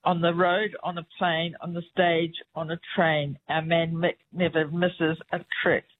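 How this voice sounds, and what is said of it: New Zealand (Kiwi) accent. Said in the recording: “my accent ... your accent, it did rhyme ... it worked with the Kiwi accent”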